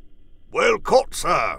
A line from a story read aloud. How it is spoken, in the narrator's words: bellowed the doctor